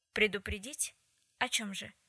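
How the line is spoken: Dry question, woman. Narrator (Russian): сухо спросила она

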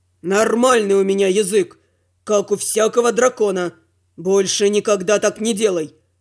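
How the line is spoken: Growl. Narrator (Russian): Прорычал он

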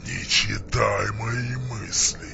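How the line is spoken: Hissing. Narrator (Russian): зашипел Варк

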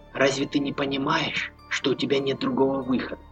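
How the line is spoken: Whispering. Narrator (Russian): зашептала

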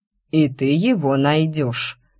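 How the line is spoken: Stern, through teeth. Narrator (Russian): сурово перебил меня декан, добавил сквозь зубы

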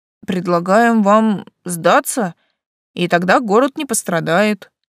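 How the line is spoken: Hesitant middle-aged man. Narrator (Russian): неуверенно выдал дяденька

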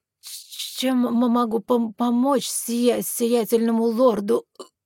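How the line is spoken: Nervous stammering, hiccup. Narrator (Russian): Заикаясь, пролепетал мужчина и нервно икнул

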